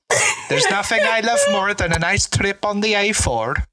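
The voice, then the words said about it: Attempted Swedish accent, drifting Irish-Scottish. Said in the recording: “Can you do a Swedish accent ... bordered on good, and then it just sounded a bit Irish, Scottish.”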